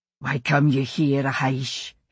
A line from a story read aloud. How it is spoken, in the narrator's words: he said, fists clenched, but his voice low